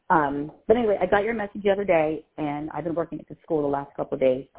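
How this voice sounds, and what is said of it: Voice sounds rough and off. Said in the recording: “My voice is very, very whack.”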